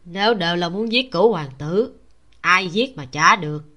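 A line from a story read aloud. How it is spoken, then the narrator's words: Low hoarse voice. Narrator (Vietnamese): Một thanh âm khàn khàn thấp thấp nói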